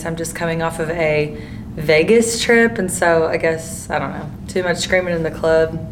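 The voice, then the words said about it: Hoarse, fading voice. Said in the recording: “I'm a little hoarse today. I'm losing my voice.”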